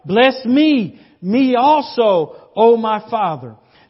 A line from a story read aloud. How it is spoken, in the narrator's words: Esau cried with an exceedingly great and bitter cry and said to his father